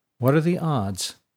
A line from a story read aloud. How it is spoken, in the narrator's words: said Sanin in a flat tone